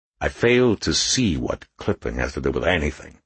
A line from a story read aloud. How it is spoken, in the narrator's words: muttered Frock